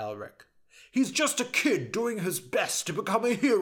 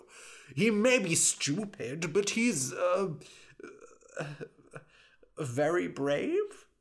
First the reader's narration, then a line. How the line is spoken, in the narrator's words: He said this last part in a very doubtful tone